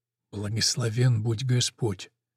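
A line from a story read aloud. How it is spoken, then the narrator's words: Whispered. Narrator (Russian): шепотом произносит он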